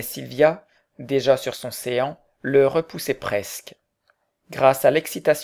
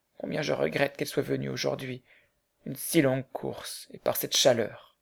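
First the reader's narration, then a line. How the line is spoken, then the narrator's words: Murmured. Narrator (French): murmurait-il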